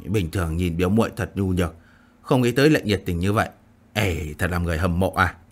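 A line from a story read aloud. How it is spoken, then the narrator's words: Careless mutter. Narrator (Vietnamese): Phong Vô Ảnh vô tâm vô phế lẩm bẩm nói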